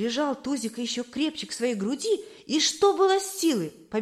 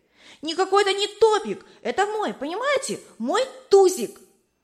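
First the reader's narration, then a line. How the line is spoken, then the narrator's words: Loud shouted reply. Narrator (Russian): Он громко закричал им в ответ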